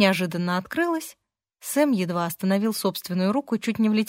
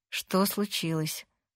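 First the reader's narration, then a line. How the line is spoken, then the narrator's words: Hoarse woman's question. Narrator (Russian): хриплым голосом спросила женщина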